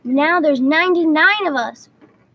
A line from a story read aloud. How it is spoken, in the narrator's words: cried Patch